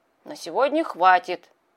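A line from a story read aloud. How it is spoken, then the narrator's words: Muffled grumble. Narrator (Russian): пробурчал он в бороду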